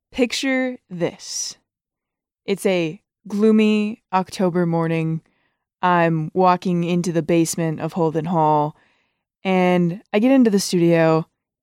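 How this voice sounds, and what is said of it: Dramatic storyteller voice. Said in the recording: “put on my storyteller voice”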